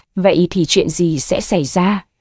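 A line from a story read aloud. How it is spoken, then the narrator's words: Hesitant, cold question. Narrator (Vietnamese): Cô do dự, rồi hỏi lạnh lùng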